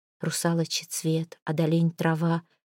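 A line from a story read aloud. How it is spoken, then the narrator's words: Whisper. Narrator (Russian): шептала прекраса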